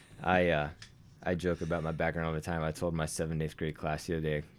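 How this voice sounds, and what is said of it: Mild Southern American accent. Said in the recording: “I speak with a somewhat southern accent”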